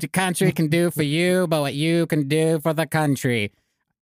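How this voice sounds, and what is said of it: Put-on Boston accent. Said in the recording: “that's my Boston accent.”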